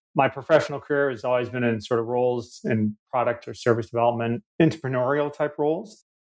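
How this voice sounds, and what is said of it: Canadian accent. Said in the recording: “As you can tell by my accent, a bit of a wayward Canadian”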